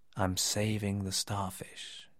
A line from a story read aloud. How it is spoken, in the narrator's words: quietly replied